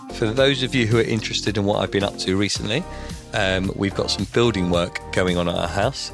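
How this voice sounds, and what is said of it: Voice not quite back to normal. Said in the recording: “As you can hear, my voice is not quite back to normal, but getting there.”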